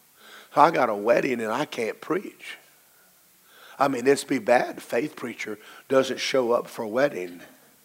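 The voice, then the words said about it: Hoarse, low voice. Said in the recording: “Woke up a little hoarse. ... they thought I was a mafia boss ... I got a low enough voice anyway, and this hasn't helped it”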